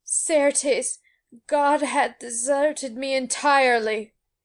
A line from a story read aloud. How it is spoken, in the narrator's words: he cried out still in a very loud voice